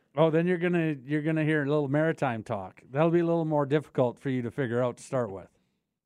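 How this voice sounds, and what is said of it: Canadian accent. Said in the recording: “We don't have a Canadian accent. ... Well, I guess I still do. People tell me ... yeah, you definitely do.”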